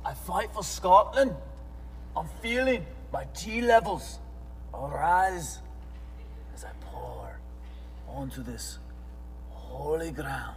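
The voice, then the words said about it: Put-on Scottish accent. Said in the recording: “That's my Scottish accent.”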